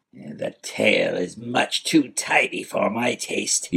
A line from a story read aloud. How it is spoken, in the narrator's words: he snarled